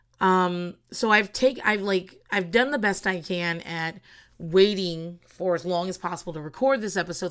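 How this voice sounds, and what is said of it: Hoarse, strained voice. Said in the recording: “my voice sounds like this. My voice sounds like this because I got a cold, I got a cough ... which means I cough a lot, which means I lose my voice”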